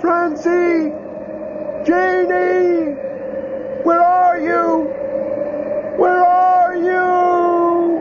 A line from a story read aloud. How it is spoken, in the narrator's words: shouting